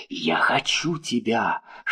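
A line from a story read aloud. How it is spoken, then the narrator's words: Whisper. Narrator (Russian): шептал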